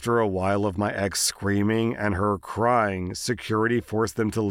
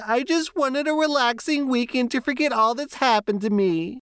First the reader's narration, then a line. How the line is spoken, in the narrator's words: started bawling her eyes out, saying